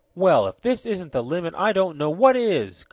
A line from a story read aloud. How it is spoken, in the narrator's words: cried Ned Newton